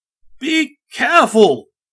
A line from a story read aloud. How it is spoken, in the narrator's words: yelled